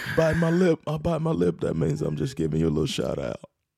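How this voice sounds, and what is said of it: Imitates another person's voice. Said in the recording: “That's a pretty good Bill Clinton impression there.”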